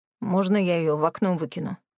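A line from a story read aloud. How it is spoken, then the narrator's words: Through gritted teeth. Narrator (Russian): сквозь зубы процедил Морис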